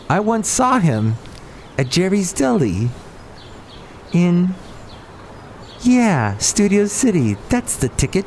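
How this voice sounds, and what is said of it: John Lovitz impression. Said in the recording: “my John Lovitz impression”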